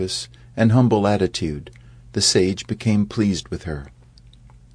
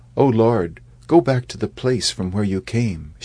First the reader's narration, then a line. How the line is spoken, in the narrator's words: she replied in a bashful voice